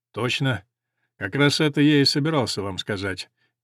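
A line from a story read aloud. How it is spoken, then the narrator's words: Casual tone. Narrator (Russian): небрежным тоном проговорил Грант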